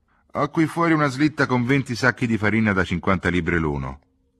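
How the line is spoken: Rough, brisk tone. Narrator (Italian): continuò Matthewson con tono rude e sbrigativo

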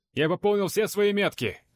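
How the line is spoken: Shout. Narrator (Russian): крикнул я Вронскому

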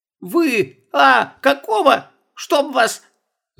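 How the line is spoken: Shouting, clipped phrases. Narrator (Russian): закричала она, проглатывая окончание фраз

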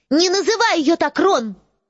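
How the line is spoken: Sharp, cutting off. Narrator (Russian): резко оборвала его Джинни

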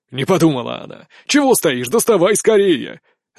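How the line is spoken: Fierce bark. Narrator (Russian): Рявкнул так, что у меня самого волосы дыбом

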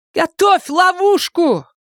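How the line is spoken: Hasty shout. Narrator (Russian): Майор только и успела крикнуть Саше

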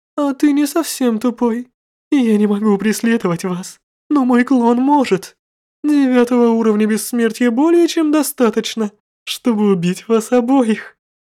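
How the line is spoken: Self-satisfied giggling. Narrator (Russian): хихикала Ракшаса, явно довольная собой

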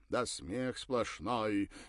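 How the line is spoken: Trained voice, exclaiming. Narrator (Russian): хорошо поставленным голосом воскликнул Мейерхольд

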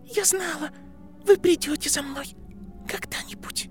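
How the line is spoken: Trembling, breaking, quiet sobs. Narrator (Russian): Ее голос дрожал и ломался, прерываемый тихими всхлипами

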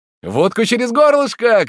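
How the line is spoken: Shouting in chorus. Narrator (Russian): кричали все хором

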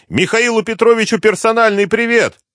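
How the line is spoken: Driver shouting. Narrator (Russian): водитель вдруг высунулся из дверцы и крикнул кому-то

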